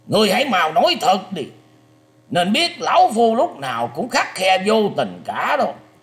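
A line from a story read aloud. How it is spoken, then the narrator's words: Harsh stern shout. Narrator (Vietnamese): lão già mặt đỏ gằn giọng quát đạt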